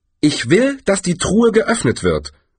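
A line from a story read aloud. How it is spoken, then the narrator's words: Sharp. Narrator (German): sagte Herrena scharf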